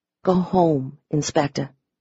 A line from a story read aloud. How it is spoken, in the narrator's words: I said softly